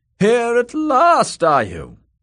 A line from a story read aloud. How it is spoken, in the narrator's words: boomed his aunt